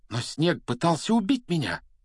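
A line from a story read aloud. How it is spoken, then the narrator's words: Exclamation. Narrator (Russian): воскликнул он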